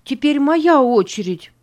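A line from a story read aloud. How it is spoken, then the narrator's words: Shout. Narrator (Russian): крикнула она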